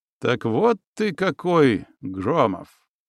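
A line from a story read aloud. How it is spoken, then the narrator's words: Nasty, arrogant voice. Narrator (Russian): мерзким, надменным голосом произнес он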